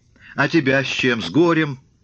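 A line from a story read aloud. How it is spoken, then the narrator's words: Laughing. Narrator (Russian): Прохор захохотал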